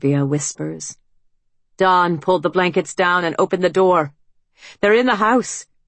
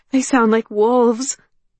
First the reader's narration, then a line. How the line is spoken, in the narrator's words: Olympia cries